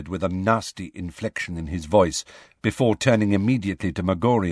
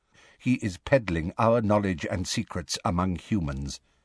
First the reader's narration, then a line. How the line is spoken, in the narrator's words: said Magorian quietly